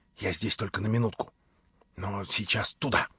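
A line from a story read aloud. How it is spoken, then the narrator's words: Whisper. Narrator (Russian): Алеша шепнул мне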